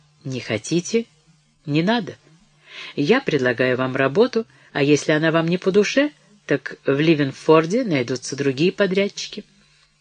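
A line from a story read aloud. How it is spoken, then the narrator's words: Composed, usual calm tone. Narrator (Russian): Но тотчас же овладел собой и добавил обычным спокойным тоном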